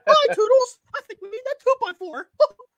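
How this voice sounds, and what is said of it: Good Mickey Mouse character voice. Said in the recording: “That was a good Mickey ... that was a really good Mickey ... good Mickey Mouse impression”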